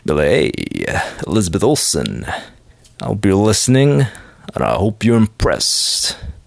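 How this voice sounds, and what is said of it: Deep manly put-on accent. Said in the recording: “You gotta have that real manly Lothario voice ... Don't know why I have this accent. I don't even know what it is. Kind of sounds like Sly Stallone to me.”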